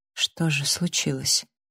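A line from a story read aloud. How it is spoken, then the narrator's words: Barely audible question. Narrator (Russian): спросила я чуть слышно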